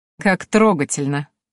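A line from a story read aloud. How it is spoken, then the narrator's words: Snide smirk. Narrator (Russian): ехидно ухмыльнулась рыжая стерва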